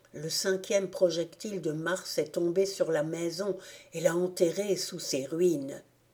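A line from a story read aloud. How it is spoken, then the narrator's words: Murmured. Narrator (French): murmurai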